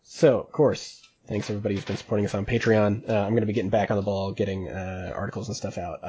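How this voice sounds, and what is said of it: Strained, fading sick voice. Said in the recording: “I'm losing my voice. ... I've been sick for days anyway.”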